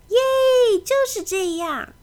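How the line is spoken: Excited shout. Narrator (Chinese): 他兴奋地大叫

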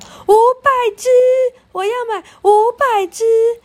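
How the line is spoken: Excited shout. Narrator (Chinese): 贝奇跳跳着大叫

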